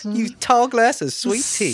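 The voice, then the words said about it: Put-on Southern Belle accent. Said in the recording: “I'm losing my accent. ... it was way more Southern Belle before. ... y'all need to be a little bit more Southern”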